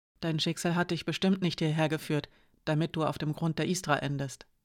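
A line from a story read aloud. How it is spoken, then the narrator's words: Quiet. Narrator (German): sagte Hiraya leise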